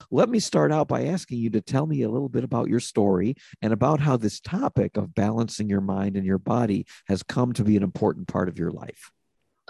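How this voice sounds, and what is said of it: Sick, slightly off-sounding voice. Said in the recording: “excuse my voice today ... doesn't sound right ... a bug of some sort. So my voice is a little bit off”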